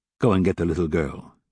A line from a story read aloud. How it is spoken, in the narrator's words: he said